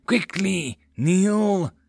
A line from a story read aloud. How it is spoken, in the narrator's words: quickly hissed out